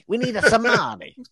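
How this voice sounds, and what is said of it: Poor fake Italian accent. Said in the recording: “He's not an Italian accent ... Because of their poor accent. ... Very poor.”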